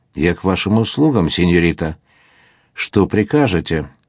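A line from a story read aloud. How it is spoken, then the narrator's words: Soft tender voice. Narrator (Russian): тихим ласковым голосом сказал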